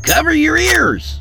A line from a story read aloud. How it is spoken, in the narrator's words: he hollered